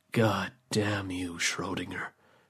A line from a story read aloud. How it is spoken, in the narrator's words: the man said quietly